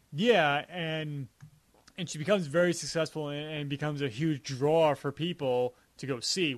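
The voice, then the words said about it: Heavy Long Island accent. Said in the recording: “my Long Island accent comes through sometimes with certain words I pronounce, and I always forget the word draw. I have a really heavy accent with it ... that's such a Long Island thing to say”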